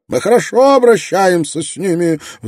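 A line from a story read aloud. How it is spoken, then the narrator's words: Squealing. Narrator (Russian): взвизгнул Тилман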